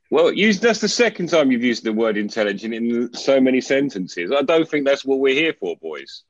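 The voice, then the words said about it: British accent. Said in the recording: “Your accent is just lovely... Sounds so intelligent... The bloody Brits.”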